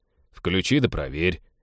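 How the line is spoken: Snide advice. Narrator (Russian): ехидно посоветовал Теодор

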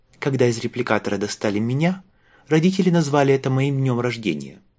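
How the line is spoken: Dry reply. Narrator (Russian): ответила она сухо

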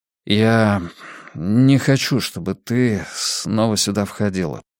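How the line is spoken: Dejected voice. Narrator (Russian): сказал я упавшим голосом

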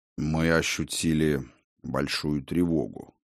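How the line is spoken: Quiet old man's voice. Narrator (Russian): негромко сказал старый мастер

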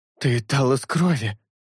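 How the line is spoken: Teeth-chattering, forced out. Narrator (Russian): Стуча зубами, выдавил шелк

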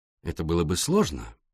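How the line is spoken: Soft male voice. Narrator (Russian): мягко произнес Пуаро

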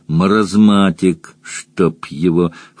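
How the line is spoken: Snorting mare. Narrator (Russian): фыркнула кобыла

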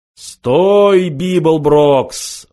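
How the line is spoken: Amplified roaring voice. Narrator (Russian): взревел усиленный громкоговорителем голос

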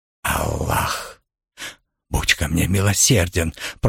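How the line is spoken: Moaning. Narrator (Russian): простонал Асад

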